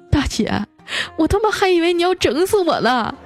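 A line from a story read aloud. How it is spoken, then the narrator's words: Near tears. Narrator (Chinese): 开路虎那哥们下车的时候都快哭了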